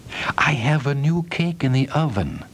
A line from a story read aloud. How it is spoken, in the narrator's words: whispered the cook